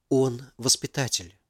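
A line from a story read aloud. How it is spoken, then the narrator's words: Whispered female argument. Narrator (Russian): шепотом привела самый, видимо, сильный аргумент Валентина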